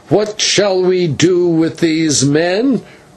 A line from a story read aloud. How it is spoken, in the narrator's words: cried again